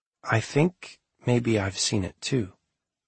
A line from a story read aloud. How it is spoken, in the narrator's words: said softly, as though issuing an apology